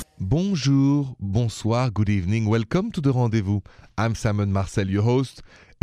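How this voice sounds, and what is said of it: French accent. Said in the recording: “the accent is from Paris, France. I'm an American with a French accent.”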